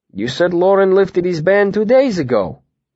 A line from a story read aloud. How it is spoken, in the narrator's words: Willem said